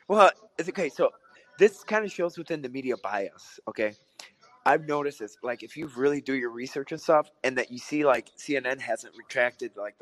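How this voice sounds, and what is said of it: Rough, sick-sounding throaty voice. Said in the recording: “How bad do I sound? ... you sound extremely, extremely bad. ... Do I sound like a smoker? ... you sound like you have strep throat.”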